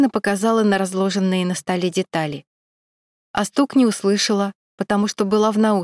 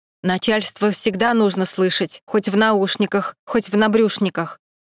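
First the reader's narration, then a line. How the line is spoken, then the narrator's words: Stern speech. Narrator (Russian): строго проговорил завхоз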